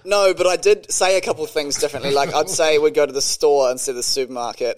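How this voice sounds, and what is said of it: New Zealand accent. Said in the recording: “I still said it in a Kiwi accent”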